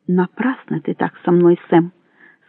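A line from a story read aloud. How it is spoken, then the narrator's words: Quiet. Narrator (Russian): сказала она тихо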